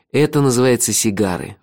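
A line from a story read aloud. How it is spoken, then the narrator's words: Sighing. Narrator (Russian): вздохнул я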